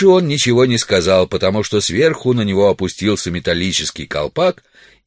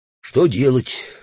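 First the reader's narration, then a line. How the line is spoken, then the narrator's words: Insincere sigh. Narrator (Russian): лицемерно вздохнул Удалов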